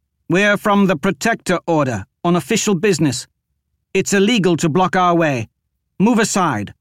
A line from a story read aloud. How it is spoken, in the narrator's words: He raised his voice and shouted